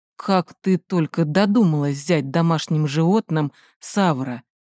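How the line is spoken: Grumbled. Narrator (Russian): проворчал Райан

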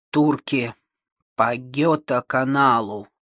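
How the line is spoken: Grumbled. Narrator (Russian): проворчал

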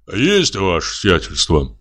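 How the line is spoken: Deep bass voice. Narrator (Russian): пробасил все время до этого молчавший одноглазый Кузьма

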